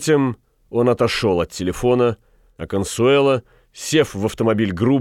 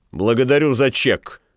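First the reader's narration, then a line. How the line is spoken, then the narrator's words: Rude. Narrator (Russian): грубо сказал Ван Конат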